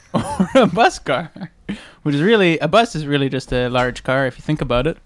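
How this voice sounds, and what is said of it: Odd put-on accent. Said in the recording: “my accent's a little bit effed up”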